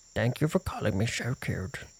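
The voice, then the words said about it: Little beetle character voice. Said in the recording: “Can you do the voice of a little beetle?”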